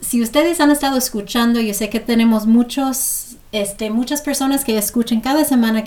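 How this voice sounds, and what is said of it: Non-native accent speaking Spanish. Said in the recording (Spanish): “aguántenme con mi acento”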